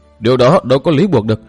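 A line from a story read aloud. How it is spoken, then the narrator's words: Loud protest. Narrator (Vietnamese): lớn tiếng cự lại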